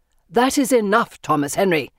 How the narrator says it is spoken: Father barks

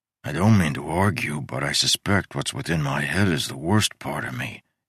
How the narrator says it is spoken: he muttered

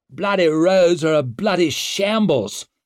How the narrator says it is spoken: snapped a lord

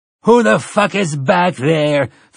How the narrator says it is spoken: Finley roared

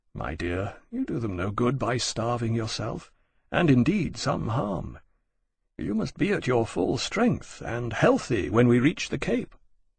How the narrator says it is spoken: Lawrence gently said

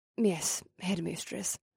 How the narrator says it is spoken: Vanessa muttered

